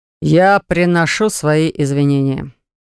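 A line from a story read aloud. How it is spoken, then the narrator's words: Man through gritted teeth. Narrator (Russian): цедит сквозь зубы мужчина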